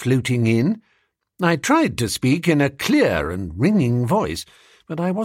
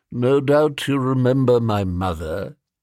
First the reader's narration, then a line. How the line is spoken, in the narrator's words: said Professor Pringle mournfully